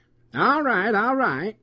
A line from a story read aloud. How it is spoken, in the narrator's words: he mumbled